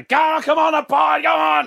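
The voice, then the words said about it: Screaming. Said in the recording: “Screaming out”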